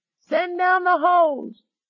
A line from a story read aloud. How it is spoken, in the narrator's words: screamed